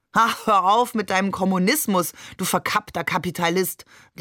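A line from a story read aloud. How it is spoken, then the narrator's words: Called out. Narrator (German): rief Onkel Hamid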